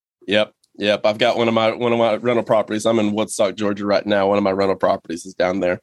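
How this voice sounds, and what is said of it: Georgia accent. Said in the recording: “I could still hear that Georgia accent. It's not hard. I could hear it.”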